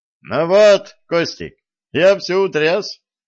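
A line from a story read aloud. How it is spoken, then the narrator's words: Cheerful. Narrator (Russian): весело сказал Виталик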